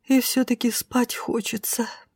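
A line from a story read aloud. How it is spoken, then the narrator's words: Quiet confession. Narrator (Russian): призналась Шайни тихо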